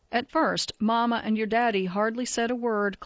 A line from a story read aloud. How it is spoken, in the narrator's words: Clay said